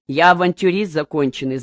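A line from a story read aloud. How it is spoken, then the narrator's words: Laughing. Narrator (Russian): засмеялся он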